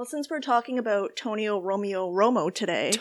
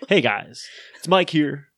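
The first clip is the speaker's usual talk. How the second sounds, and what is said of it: Put-on deep radio announcer voice. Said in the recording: “I want to work on my radio voice ... I want one of those deep voice”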